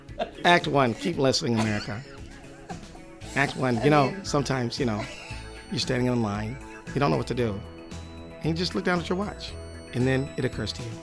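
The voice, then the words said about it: Nasal Ira Glass impression. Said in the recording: “Ira Glass would say it like ... A little more nasally. You know, Ira's kind of nasal”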